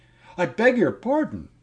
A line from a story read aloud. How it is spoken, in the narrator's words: cried